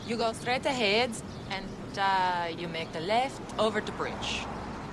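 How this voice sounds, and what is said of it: Put-on foreign accent. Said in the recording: “That's a lovely accent you have. New Jersey? ... Austria.”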